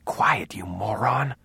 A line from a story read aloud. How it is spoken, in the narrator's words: she whispered